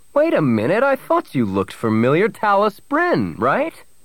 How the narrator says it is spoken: he exclaimed

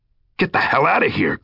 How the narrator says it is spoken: Greg snapped

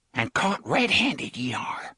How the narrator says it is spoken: she whispered

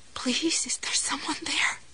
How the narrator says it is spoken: Her voice was humble, choked with tears

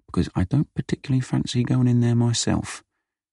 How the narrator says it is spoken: he whispered to Vinny

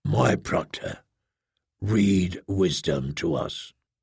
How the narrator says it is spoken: the brawny weapons master said, very softly

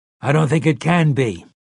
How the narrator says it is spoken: Callahan said

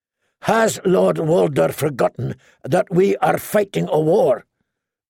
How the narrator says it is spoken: Brendan Blackfish asked sharply

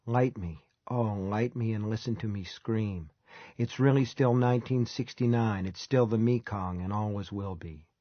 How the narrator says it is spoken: plaster and paper and clay people seem to whisper

